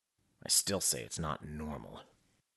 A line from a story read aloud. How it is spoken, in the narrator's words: Metcalf muttered